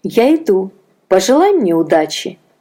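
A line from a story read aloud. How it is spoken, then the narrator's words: Cheerful. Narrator (Russian): сказала она весело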